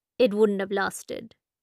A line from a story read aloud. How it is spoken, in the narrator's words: Deepti says flatly